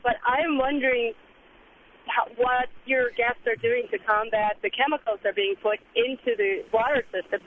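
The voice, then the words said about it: Hoarse, strained voice. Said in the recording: “I'm suffering from laryngitis”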